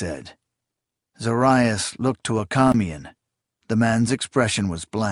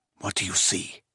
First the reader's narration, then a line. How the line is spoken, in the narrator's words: Zorias hissed